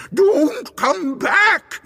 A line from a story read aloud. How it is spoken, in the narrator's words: It screamed